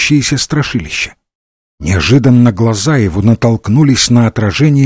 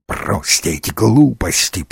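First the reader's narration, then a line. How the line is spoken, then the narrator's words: Hissed. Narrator (Russian): прошипел Дивайн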